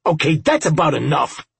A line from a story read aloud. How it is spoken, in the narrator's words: Robinson snapped